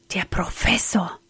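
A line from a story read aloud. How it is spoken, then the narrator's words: Frightened whisper. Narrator (German): flüsterte erschrocken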